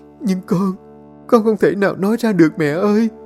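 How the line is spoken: Sobbing tearfully. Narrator (Vietnamese): Ly chỉ sụt sùi, nước mắt ngắn dài

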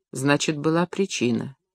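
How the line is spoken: Quiet reply. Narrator (Russian): негромко ответил Леонид

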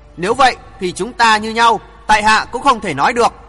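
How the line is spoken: Sneering. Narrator (Vietnamese): Hoàng Thượng Chí cười khẩy nói

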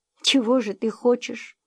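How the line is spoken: Soft question. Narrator (Russian): мягко спросила

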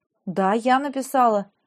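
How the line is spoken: Confused. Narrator (Russian): растерянно подтвердила

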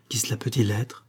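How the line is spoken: Murmured. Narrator (French): murmura

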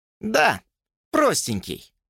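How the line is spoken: Snort. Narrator (Russian): фыркнул Джордж

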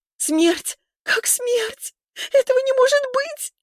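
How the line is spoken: Loud sobbing, thin howl. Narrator (Russian): Лиза теперь зарыдала в голос, а потом завыла тонко на одной низкой ноте, как воют раненые волчицы

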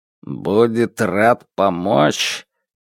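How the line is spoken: Skeptical snort. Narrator (Russian): Пин хмыкнул

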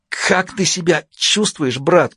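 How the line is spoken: Hoarse, spluttering. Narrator (Russian): прохрипела брызжа слюной

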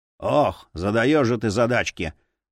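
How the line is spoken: Grumbling. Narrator (Russian): проворчал Асмунда

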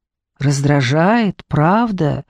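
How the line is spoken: Calm question. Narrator (Russian): спокойно спросила Дженни

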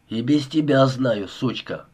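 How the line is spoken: Grumbling mutter. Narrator (Russian): пробурчал тот

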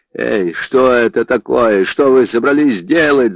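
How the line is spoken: Yelling. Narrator (Russian): заорал он

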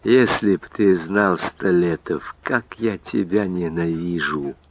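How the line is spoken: Whispered. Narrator (Russian): прошептал Заварзин

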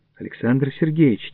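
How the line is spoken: Quiet. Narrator (Russian): тихо сказал я

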